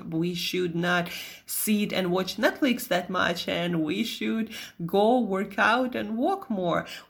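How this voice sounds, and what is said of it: Russian accent. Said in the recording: “here was my Russian accent”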